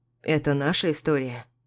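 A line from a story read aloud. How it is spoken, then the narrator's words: Quiet reply. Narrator (Russian): тихо отвечаю я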